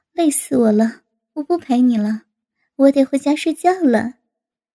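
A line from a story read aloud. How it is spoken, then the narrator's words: Laughing. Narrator (Chinese): 高芳对王丹笑道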